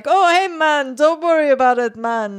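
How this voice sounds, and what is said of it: Bad put-on Jamaican accent. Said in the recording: “a white person's Jamaican accent, you know, the sort of like, hey, man ... I'm going to have to do the bad white person's Jamaican accent.”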